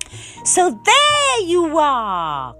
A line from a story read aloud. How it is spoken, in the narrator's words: cried Mrs